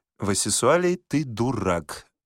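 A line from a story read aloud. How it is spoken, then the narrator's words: Calm woman. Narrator (Russian): спокойно ответила жена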